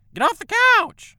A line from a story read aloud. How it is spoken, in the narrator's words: she shrieked